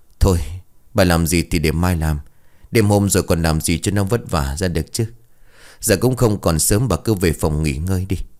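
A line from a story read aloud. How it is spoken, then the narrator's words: Sighing old man. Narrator (Vietnamese): Ông Mạnh thở dài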